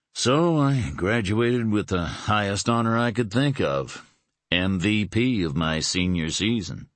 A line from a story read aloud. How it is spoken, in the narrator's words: he said, his tone mocking